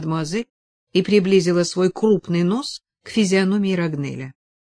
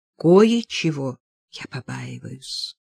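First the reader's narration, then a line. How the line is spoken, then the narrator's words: Quiet repetition. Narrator (Russian): повторила она тихо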